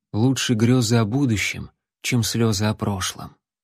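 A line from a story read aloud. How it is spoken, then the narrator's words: Quiet. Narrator (Russian): Джон негромко произнес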